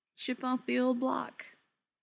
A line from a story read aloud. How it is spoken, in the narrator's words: Neil said dryly